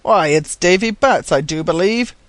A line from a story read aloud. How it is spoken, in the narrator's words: cried Sam Baker